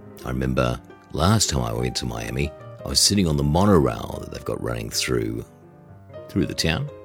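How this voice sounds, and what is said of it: Australian accent. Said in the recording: “he noticed my accent. ... I'm from Australia.”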